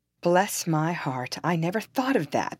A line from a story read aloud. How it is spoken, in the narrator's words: exclaimed my father